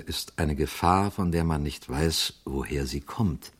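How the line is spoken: Quiet priest. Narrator (German): sagte der Priester leise

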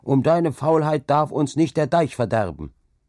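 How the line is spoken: Called out. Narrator (German): rief

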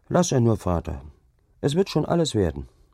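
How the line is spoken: Calm reply. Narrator (German): Hauke erwiderte ruhig

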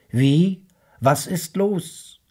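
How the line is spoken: Calling back. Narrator (German): rief zurück

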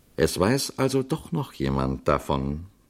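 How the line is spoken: Calm. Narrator (German): sagte der Priester ruhig

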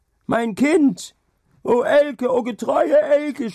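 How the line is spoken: Shout into storm. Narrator (German): schrie Hauke in den Sturm hinaus

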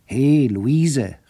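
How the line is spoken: Calling out. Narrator (German): rief er

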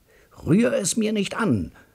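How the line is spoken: Roaring. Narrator (German): brüllt mein Bruder

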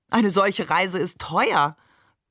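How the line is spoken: Laughing. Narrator (German): Barbe lachte

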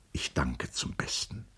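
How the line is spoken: Murmured. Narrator (German): murmelte er

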